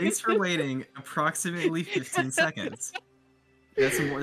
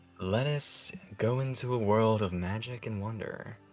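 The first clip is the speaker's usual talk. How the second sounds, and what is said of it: Soft ASMR-style voice. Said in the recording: “This is my ASMR voice, and I'll be doing this for the rest of the time”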